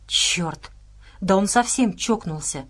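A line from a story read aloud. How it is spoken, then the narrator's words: Whispered. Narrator (Russian): прошептал Отто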